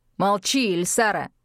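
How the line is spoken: Irritated bark. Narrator (Russian): раздраженно рявкнул он

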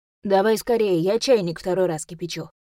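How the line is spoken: Father grumbling from kitchen. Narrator (Russian): проворчал с кухни отец

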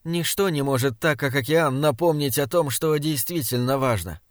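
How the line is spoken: Soft, smiling. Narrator (Russian): сказала она тихо и улыбнулась

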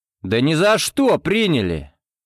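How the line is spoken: Loud and clear. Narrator (Russian): громко и отчетливо сказал я

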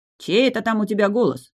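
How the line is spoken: Barking. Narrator (Russian): рявкнул Раф

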